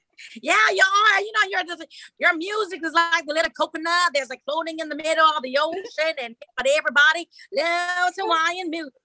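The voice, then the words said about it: Put-on country accent, done badly. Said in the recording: “Do the country accent again. ... Terrible. Terrible. ... That's horrible. It's just so horrible.”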